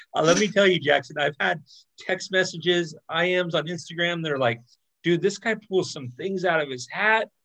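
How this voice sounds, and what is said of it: Slightly off, unwell-sounding voice. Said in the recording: “I've been a little under the weather ... I sound a little weird”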